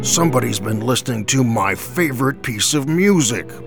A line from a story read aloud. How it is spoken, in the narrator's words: Papa Bear roared